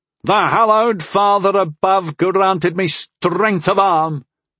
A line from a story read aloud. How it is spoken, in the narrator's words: Vadrian bellowed from across the way